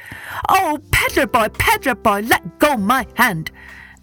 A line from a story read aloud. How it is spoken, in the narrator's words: the monkey called out